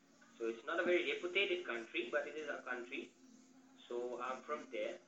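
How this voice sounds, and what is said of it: Indian or Asian accent. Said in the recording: “Indian accent? ... my accent is like an Indian or Asian, you can say. You can't say Indian, it's Asian.”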